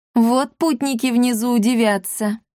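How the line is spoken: Laughing. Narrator (Russian): рассмеялся брат Пафнутий

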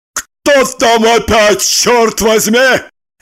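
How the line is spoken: Bark. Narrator (Russian): рявкнул

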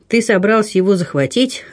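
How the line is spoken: Laughing question. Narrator (Russian): рассмеявшись, спросил Дрейв

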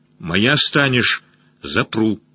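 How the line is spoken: Almost angry. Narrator (Russian): сказал почти зло

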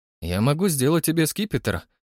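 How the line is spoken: Smirking snort. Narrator (Russian): хмыкнул Фрэнк

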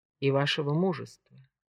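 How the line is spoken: Soft interjection. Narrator (Russian): мягко вставила Джемма

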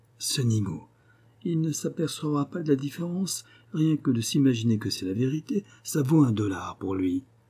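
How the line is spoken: Beery low voice. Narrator (French): d'une voix qui sentait la bière, il dit tout bas

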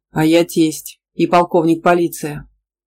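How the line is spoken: Plain. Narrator (Russian): сказал папа

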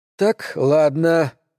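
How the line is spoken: Sighing. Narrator (Russian): вздохнул он

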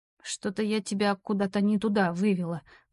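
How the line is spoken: Mutter. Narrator (Russian): пробормотала я

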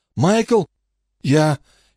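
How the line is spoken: Strained, forced out. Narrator (Russian): только и смог выдавить он

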